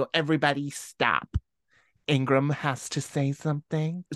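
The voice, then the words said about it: Grating, annoying American voice. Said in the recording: “in this annoying American voice. ... it was like grating”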